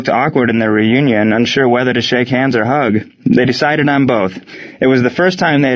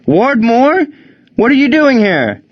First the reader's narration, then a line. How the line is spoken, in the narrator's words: Gene yelled out